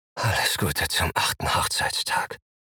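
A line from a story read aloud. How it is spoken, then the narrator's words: Breathless whisper. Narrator (German): flüstere ich atemlos in Amandas Ohr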